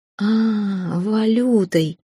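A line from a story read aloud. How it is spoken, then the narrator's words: Drawn-out drawl. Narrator (Russian): протянула я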